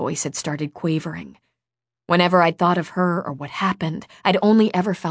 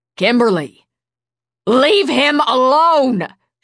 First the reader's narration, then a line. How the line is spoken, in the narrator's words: she shouted again